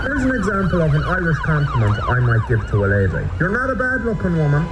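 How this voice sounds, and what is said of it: Irish accent. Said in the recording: “genuine compliments just don't sound good in an Irish accent”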